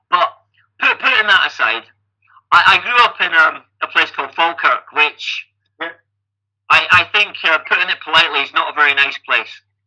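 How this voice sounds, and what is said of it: Scottish accent. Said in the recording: “I have a Scottish accent.”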